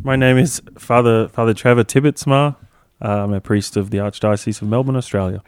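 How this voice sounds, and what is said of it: Australian accent. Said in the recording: “You have a wacky accent.”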